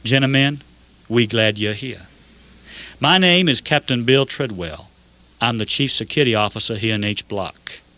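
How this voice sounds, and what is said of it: Georgian Southern US accent. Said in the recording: “He greeted us in his Georgian accent.”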